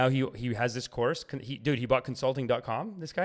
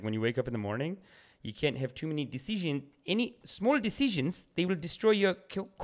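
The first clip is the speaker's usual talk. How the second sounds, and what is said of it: Imitated New Zealand accent. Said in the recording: “He's from New Zealand. And he talks like this”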